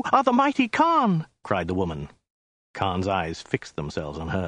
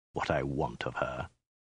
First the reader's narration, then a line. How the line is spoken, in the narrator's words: he hissed